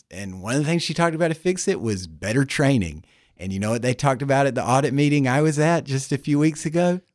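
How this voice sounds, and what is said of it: Subtle Southern American accent. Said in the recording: “has an accent ... It's it's subtle ... are you from Australia? ... I'm actually from the American South, North Carolina”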